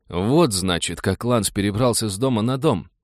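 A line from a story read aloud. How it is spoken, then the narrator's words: Admiring mutter. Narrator (Russian): восхищенно пробормотал Роджер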